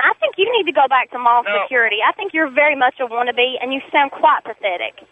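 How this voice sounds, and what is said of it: Strong regional accent with drawn vowels. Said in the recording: “You spell it F-A-A-F-E, Fife. ... I'm proud of my accent. I'm proud of where I come from. ... Oh, it's an accent.”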